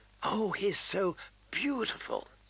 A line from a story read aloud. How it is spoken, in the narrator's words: Sansa's fervent whisper